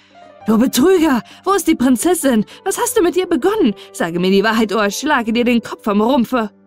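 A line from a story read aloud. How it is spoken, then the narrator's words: Angry shout. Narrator (German): schrie er ihn an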